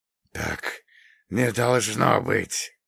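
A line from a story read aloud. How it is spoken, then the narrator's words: Hoarse rasp. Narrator (Russian): прохрипел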